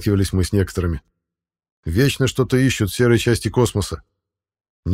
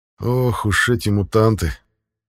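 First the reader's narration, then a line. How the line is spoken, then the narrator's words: Grumble. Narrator (Russian): проворчал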